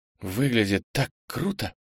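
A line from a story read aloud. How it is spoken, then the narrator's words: Whispered. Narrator (Russian): прошептала Хиша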